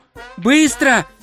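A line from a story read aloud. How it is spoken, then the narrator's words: Shout. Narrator (Russian): крикнул Два Цветок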